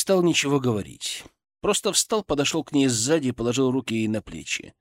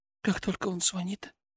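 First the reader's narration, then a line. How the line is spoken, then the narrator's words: Almost soundless. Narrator (Russian): Тихо, почти беззвучно сказала она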